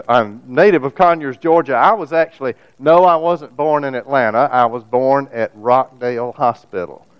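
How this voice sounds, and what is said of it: Southern American accent. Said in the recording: “I'm Southern ... the Southern accent is real”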